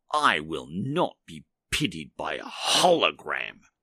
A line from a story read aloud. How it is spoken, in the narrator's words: he sneered